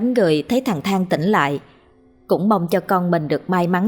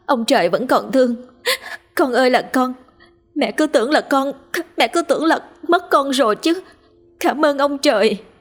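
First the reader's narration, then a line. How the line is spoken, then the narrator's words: Sobbing mother, relieved. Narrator (Vietnamese): Hằng thấy con mình tỉnh lại thì liên tục mếu máo mà nói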